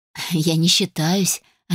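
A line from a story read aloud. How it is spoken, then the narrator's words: Laughing reply. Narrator (Russian): рассмеялась я в ответ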